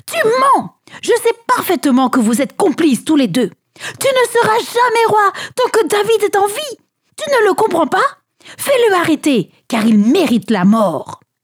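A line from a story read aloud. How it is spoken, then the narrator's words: Man exclaiming. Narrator (French): il s'écria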